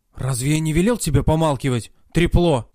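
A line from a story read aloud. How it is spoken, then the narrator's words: Hissed. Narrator (Russian): прошипел он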